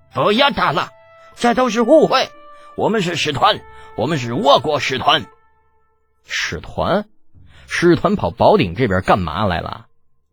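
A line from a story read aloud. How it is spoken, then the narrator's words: Cold sneering scoff. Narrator (Chinese): 一脸冷笑的 哼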